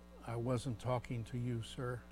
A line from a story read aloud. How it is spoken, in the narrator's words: as diplomatically as he could, the young man said softly